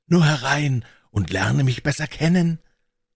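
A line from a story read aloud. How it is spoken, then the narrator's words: Ghost calling out. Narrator (German): rief der Geist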